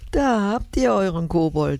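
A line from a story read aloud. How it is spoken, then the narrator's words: Laughing while speaking. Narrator (German): sagte Papa und lachte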